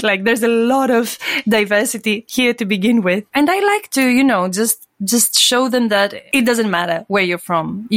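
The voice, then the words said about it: Greek accent. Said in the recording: “I'm Greek. You can hear my accent.”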